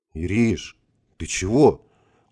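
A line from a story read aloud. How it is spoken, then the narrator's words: Breathless exhale. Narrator (Russian): выдохнул я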